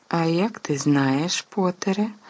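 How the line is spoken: Gentle objection. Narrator (Ukrainian): лагідно заперечила МакГонагалл

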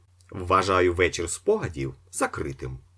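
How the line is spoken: Plain. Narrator (Ukrainian): сказав Остап

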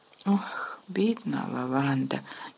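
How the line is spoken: Sighing. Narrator (Ukrainian): зітхнула Герміона

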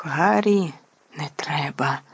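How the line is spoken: Terrified whisper. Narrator (Ukrainian): нажахано прошепотіла Герміона

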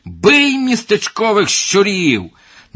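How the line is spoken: Shouting, spitting blood. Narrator (Ukrainian): Сплюнувши кров'ю, закричав

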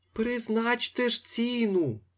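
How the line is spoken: Moaning. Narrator (Ukrainian): стогнав панотець Федір

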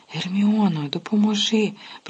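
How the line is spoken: Groaning. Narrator (Ukrainian): простогнав

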